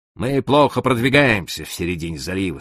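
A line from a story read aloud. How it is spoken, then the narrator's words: Calm. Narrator (Russian): спокойно продолжал я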